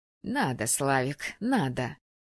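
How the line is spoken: Through gritted teeth. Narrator (Russian): процедила мать

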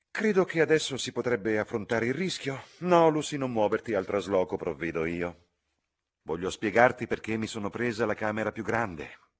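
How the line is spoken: Sighing speech. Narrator (Italian): la signorina Bartlett si alzò con un sospiro e disse

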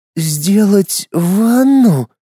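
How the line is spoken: Hoarse repetition. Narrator (Russian): хрипло повторила Луиза

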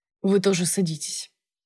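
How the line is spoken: Boss granting permission. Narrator (Russian): разрешил мне босс

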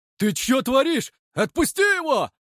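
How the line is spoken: Yelling. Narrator (Russian): Заорал друг кривоносого Илюхи

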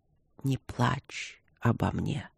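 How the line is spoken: Weak dying whisper. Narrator (Russian): обескровленными губами прошептал

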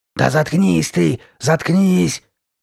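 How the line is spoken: Growling. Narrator (Russian): прорычала Карли Бет

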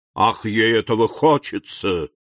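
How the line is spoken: Ominous. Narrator (Russian): сказал Вильфор зловещим тоном

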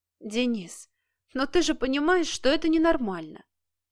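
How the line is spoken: Near-tearful moan. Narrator (Russian): чуть не плача простонала Кира

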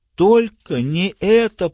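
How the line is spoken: Groaning. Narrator (Russian): простонала Нора

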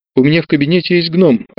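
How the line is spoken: Joyful, catching breath. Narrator (Russian): радостно переводя дух, сказал Леонид

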